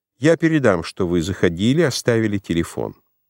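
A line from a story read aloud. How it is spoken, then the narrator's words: Said coldly. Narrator (Russian): Марта холодно сказала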